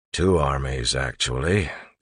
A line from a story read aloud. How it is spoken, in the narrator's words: Clubs grumbled